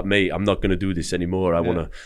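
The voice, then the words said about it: Bad put-on French accent. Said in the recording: “that was my French accent... it's a bad French accent”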